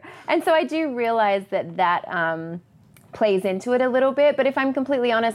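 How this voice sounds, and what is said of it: Deep Southern US accent. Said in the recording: “grew up in a different culture, if you haven't uh, gathered by my accent ... That's far south ... deep, south. Deep south.”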